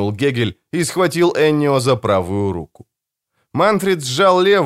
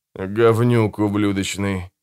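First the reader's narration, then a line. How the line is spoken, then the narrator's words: Mumbling. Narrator (Russian): промямлил Альфонсо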